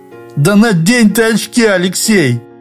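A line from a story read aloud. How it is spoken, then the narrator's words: Sudden anguished shout. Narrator (Russian): страдающим голосом закричал вдруг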